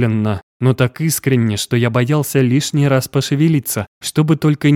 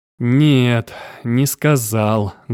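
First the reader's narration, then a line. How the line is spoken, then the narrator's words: Sad retort. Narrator (Russian): грустно парировал Август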